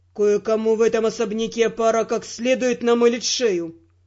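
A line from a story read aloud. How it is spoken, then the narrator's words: Grim speech. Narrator (Russian): мрачно проговорил Родрик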